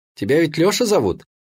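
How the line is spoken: Cheerful girl. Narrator (Russian): продолжила все так же весело девчонка

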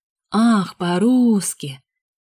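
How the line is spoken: Drawling. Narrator (Russian): протянул Андрей

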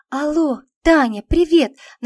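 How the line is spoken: Excited voice. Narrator (Russian): начала взволнованным голосом Ленка

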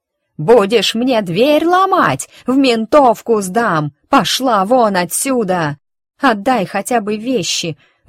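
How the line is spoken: Screaming at full lungs. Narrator (Russian): выворачивая легкие, заорала я

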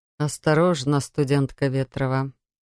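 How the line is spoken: Soft, gentle. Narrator (Russian): мягко произнес магистр

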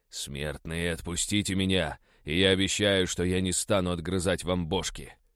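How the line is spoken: Growling. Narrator (Russian): Прорычал я

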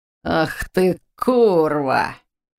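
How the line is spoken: Hoarse male cursing. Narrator (Russian): Выругнулся нападавший хриплым мужским голосом

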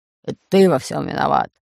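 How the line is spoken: Growling. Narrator (Russian): прорычал Бульбуль

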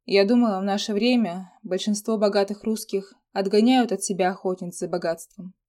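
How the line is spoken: Dry remark. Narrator (Russian): сухо заметила Алиса

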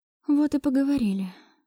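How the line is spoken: Sigh. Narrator (Russian): вздохнула я

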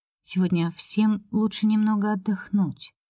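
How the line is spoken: Quiet. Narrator (Russian): тихо произнесла Нина Филипповна

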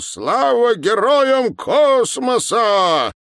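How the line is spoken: Shout. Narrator (Russian): Виктор Николаевич крикнул

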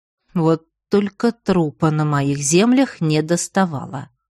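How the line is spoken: Displeased grumble. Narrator (Russian): недовольно проворчал мужчина

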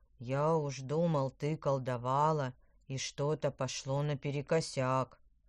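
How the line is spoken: Grumbling. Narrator (Russian): проворчал он

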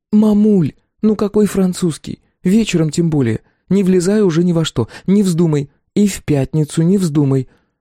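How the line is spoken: Pleading. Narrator (Russian): Наташа взмолилась

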